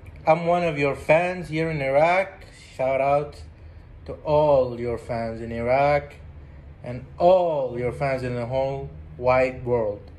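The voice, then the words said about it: Speaks English with an accent. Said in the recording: “Excuse my accent.”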